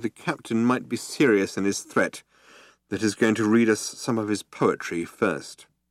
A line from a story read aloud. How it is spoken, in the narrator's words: said Ford grimly